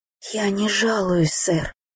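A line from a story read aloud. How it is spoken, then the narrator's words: Nervous whisper. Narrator (Russian): прошептала я, чувствуя, как глухо бьется сердце у меня в груди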